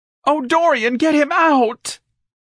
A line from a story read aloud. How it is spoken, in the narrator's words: An elegant shrieked in panic